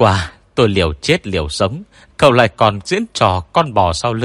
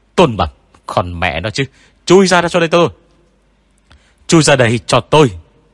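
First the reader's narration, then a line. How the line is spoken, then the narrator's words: Straining shout. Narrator (Vietnamese): Tôi gân cổ hét lên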